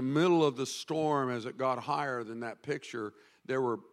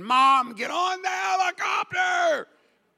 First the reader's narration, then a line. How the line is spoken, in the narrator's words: Natasha's losing her mind, screaming